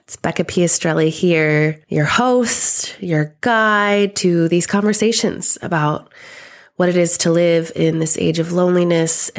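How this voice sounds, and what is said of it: Sick, congested-sounding voice. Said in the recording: “you can probably hear it in my voice. I am overcoming quite a sickness... being able to breathe through my nose and not cough through these words”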